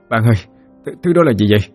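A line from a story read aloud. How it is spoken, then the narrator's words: Breathless and trembling. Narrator (Vietnamese): vừa thở vừa run rẩy nói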